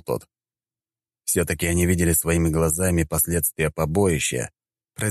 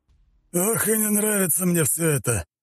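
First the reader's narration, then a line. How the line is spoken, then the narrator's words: Weary man's sigh. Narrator (Russian): вздохнул мужчина в форме военно-морских сил рода Булатовых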